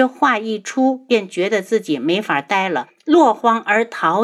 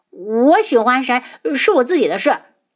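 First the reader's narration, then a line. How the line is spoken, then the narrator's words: Embarrassed anger. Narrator (Chinese): 花千颜反应这么大，羞怒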